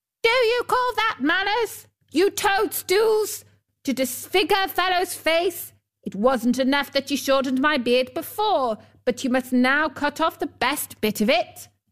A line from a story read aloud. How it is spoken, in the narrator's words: He yelled to them